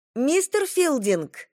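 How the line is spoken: High thin voice calling. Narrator (Russian): позвала она тонким голосом

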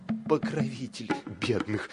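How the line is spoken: Stammering reply. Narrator (Russian): отвечает Бирбал, а сам как бы заикается

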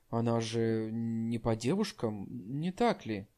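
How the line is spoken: Whisper. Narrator (Russian): прошептав Вэй Янер

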